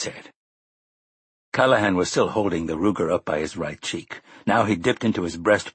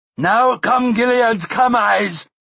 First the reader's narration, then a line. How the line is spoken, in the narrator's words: shouted an excited, nervous voice